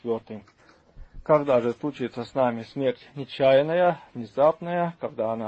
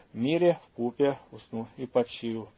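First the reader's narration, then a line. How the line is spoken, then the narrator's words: Quiet, meek. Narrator (Russian): он тихо и кротко скажет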